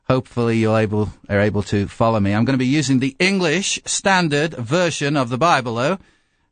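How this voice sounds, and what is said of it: English accent with slight American twang. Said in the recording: “I have an English accent according to Americans ... those who are English can say, no, there's a bit of an American twang”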